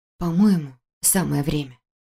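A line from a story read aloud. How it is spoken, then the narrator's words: Whisper. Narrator (Russian): прошептала я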